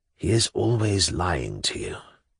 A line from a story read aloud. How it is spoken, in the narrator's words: He stooped down to my ear, whispered